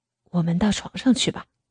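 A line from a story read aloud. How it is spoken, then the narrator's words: Gentle. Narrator (Chinese): 温柔的说道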